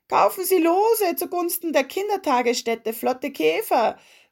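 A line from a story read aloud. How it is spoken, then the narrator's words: Young boy calling out. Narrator (German): rief ein kleiner Junge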